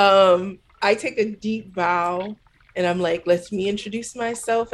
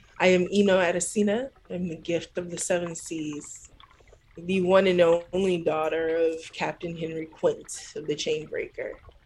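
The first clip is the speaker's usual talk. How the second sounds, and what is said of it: Put-on fantasy character dialect. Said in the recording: “I'm still speaking in this water dialect.”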